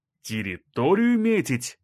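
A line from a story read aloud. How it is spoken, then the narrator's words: Exclamation. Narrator (Russian): воскликнул Краснощеков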